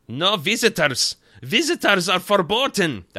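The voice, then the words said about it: Put-on German accent. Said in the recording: “he does have a German accent, so I'm not just being strange and using my accent abilities here”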